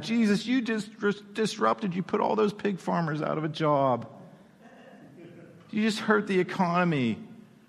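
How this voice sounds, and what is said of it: Whiny voice. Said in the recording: “I'm doing the whiny voice on purpose”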